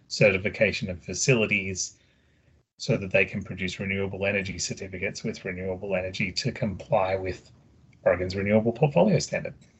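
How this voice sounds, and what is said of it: Australian accent. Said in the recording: “I do have an accent. I'm originally from Australia ... you do have a very lovely accent”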